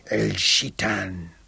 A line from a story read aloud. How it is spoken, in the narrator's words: Said, the Sultan of Zanzibar, hissed like a faulty steam valve